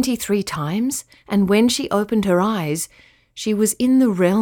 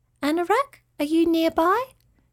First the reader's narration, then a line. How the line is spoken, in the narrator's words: Avi called in her small fairy voice